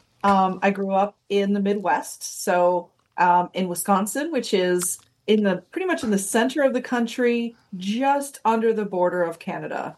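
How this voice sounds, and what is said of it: American Midwestern accent. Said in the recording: “as you might be able to tell from my accent, I'm from the United States... you might hear a Canadian accent come out once in a while”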